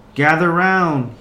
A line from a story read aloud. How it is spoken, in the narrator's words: yelled